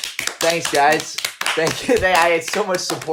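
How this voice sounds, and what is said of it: Usual voice. Nothing is said of it.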